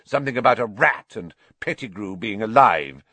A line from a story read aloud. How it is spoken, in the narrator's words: spat Snape